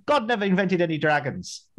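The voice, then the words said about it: Put-on Irish accent. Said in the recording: “that's my Irish accent”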